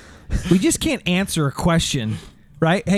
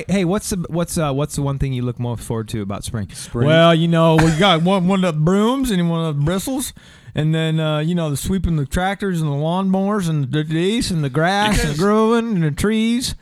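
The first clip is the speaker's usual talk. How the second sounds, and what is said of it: Impression of Rocky Balboa's voice. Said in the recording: “does a really good Balboa impersonation”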